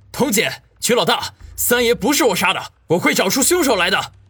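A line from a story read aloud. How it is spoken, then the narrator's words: Roaring. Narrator (Chinese): 口中吼道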